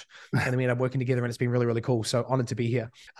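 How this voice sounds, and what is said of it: Hybrid New Zealand-American accent. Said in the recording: “my accent at this point is very hybrid. I'm mistaken for everything from an Aussie to a Kiwi to a European... listening to about 2 hours a day of American speak... a bit of a mutt accent wise”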